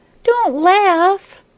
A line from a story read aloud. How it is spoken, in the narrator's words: cried Maya